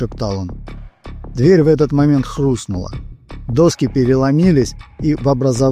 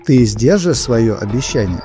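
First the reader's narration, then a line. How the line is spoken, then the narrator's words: Plain. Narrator (Russian): спросила она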